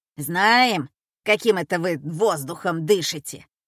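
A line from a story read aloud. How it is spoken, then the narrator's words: Grumbling. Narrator (Russian): стала ворчать Петровна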